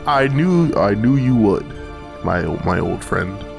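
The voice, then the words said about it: Saruman character voice, Vader-like. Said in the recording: “You sound a lot like Darth Vader... I forgot what Saruman sounds like... It's hard to do this voice.”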